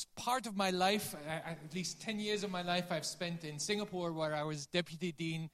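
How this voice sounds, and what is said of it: Dutch-accented English. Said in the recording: “I have a funny accent, but I'm not German. I'm originally from Holland”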